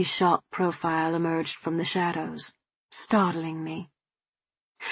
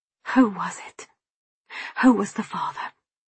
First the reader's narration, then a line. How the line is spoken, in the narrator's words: I whispered